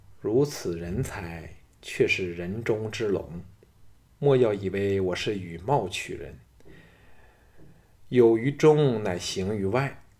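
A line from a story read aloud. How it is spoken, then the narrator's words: Admiring sigh. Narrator (Chinese): 华阳夫人双眸亮了起来，叹道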